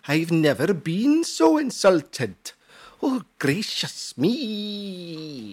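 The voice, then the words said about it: Bad put-on Welsh accent. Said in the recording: “in a Welsh accent ... that was bloody awful”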